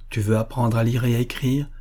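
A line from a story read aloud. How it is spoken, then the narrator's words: Completely calm voice. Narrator (French): dit-il d'une voix complètement calme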